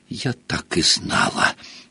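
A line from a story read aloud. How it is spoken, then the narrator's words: Breathless exclamation. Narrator (Russian): выдохнула Гермиона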